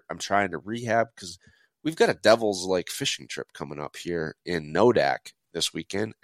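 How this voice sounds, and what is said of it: Strained, worn-out sick voice. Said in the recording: “my voice is starting to get shot ... I'm also under the weather”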